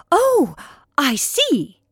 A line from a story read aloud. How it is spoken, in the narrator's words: she cried excitedly